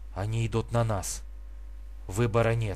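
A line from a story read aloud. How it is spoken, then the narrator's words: Whisper. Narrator (Russian): прошептал Давид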